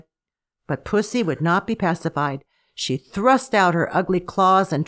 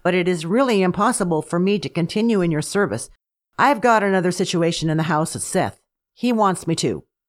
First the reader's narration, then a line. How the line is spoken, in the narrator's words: said Doggy firmly